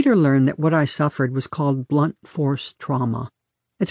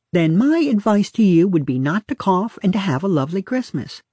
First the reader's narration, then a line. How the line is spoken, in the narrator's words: she says brightly